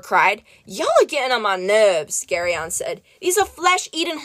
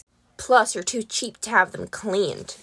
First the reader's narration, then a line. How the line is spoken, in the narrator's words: Yuriton muttered from under his hat